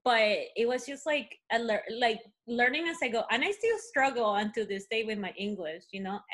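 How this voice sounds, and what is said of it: Non-native English accent. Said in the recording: “I got picked up on my accent like so many times ... I still get picked up on my accent”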